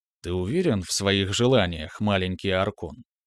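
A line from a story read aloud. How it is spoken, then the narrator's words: Soft rustling whisper. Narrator (Russian): Тихо прошелестело пространство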